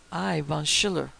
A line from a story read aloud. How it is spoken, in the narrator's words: exclaimed de Smart fiercely